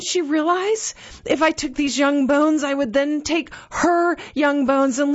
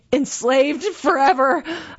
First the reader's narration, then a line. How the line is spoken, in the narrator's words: slurred